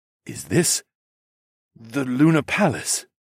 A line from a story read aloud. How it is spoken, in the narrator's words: Zoclan sputtered